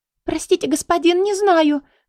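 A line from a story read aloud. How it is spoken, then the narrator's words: Frightened sobbing. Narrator (Russian): заревела испуганно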